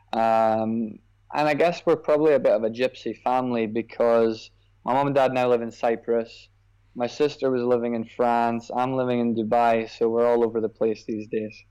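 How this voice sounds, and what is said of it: Scottish accent. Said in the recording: “his background is Scotland, right? Scottish? ... As you can probably tell from the accent, I grew up in Scotland.”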